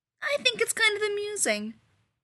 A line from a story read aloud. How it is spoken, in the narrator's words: Rodney said cheerfully